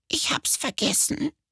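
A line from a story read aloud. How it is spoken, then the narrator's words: Sniffling quiet squeak. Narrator (German): Sie schniefte, dachte nach und piepste dann leise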